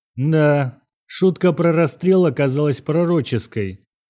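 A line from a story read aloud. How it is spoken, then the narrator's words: Gloomy remark. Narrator (Russian): мрачно заметил Сергей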